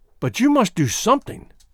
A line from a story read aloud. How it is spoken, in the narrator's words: she cried